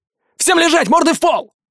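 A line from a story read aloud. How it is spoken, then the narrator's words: Barked. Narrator (Russian): рявкнул я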